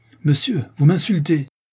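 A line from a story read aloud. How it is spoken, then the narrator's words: Young man exclaiming in rage. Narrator (French): s'écrie le jeune beau, devenant pourpre de confusion et de rage, en se voyant traité avec tant d'ignominie en présence de Francine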